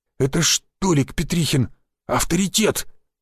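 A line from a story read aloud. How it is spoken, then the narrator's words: Whisper, swollen-faced man. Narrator (Russian): прошептал опухший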